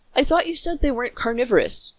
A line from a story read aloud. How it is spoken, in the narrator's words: I sputtered